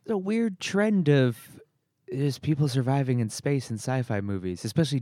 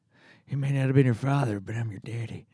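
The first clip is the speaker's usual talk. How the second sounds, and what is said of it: Movie character impression. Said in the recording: “It's a great impression.”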